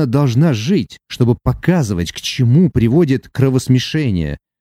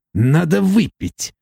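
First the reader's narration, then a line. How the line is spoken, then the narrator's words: Grumbling dwarf. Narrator (Russian): проворчал карлик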